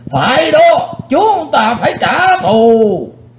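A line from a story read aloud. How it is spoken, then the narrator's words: Group shouting together. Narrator (Vietnamese): 20 mấy tên cao thủ trong Hắc Bạch Lưỡng Đạo đồng hét vang lên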